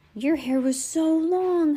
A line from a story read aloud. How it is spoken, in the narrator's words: Heidi exclaimed with a laugh